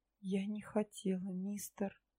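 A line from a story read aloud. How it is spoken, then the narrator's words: Barely audible excuse. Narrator (Russian): едва слышно попыталась оправдаться я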